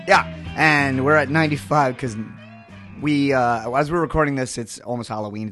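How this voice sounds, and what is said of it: Soothing, NPR-like low voice. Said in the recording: “what a friend of mine called my soothing voice. This is like my NPR voice.”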